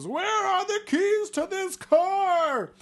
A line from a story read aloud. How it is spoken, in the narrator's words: he screams